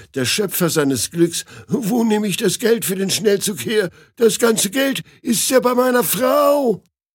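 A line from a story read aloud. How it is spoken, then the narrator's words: Newlywed wailing. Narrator (German): jammert der Neuvermählte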